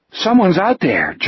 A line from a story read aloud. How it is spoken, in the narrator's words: George said nervously